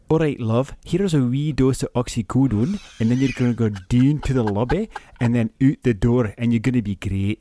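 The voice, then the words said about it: Generic Scottish accent. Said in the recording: “your best accent today ... That's a generic Scottish accent ... That was a generic Scottish ... that was your best accent today. That was brilliant.”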